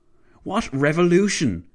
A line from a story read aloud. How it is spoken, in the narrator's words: Clavel barked